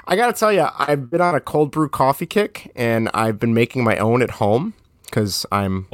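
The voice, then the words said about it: Strained, fading voice. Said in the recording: “I'm losing my voice, too.”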